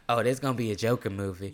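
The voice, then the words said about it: Southern Belle twang. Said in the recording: “adding a Southern Belle twang to my mom”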